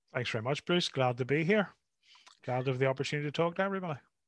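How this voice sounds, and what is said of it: Northern Irish lilt, soothing tones. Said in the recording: “that Irish lilt coming over the airways ... your soothing tones”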